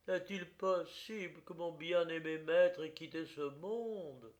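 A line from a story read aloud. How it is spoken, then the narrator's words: Despairing cry. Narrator (French): s'écria-t-il avec l'accent d'un profond désespoir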